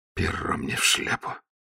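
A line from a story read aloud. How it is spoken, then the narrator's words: Mumble. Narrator (Russian): пробормотал Ваймс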